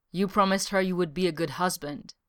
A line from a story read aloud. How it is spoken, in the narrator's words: Eska said